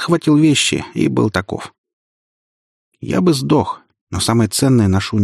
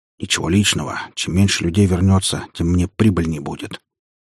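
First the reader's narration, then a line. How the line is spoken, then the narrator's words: Mutter. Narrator (Russian): пробормотал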